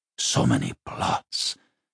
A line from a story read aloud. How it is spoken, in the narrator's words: Escrimnor groaned